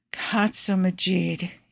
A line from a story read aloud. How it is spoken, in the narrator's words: he moans